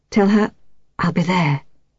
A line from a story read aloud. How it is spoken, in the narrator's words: he whispered